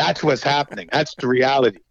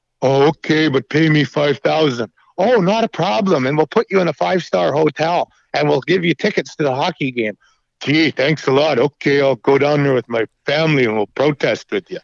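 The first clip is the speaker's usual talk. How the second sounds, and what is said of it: Bob and Doug McKenzie impression. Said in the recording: “that was a really good like Bob and Doug McKenzie impersonation ... Like that was spot on.”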